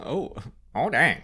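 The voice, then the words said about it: Bad imitation of a droid character. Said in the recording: “my best Chopper impression. It was bad.”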